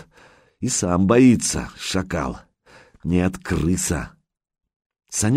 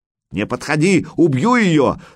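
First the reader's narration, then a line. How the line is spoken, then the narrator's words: Sudden yell. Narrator (Russian): сразу завопил крысеныш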